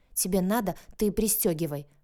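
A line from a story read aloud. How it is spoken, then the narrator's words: Snapping. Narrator (Russian): Огрызнулась я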